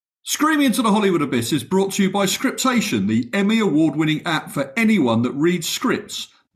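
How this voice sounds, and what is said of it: Charming accent. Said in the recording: “somebody with a more charming accent do this bit”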